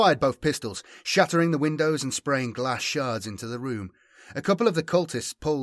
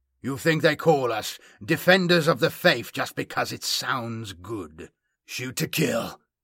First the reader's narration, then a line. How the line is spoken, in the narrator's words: rasped the stranger